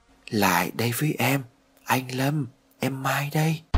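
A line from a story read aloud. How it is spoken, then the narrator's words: Soft voice near ear. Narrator (Vietnamese): một giọng nói nhỏ nhẹ ở bên tai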